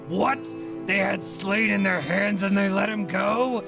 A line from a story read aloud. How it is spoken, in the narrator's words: Ulf Ironborn just roaring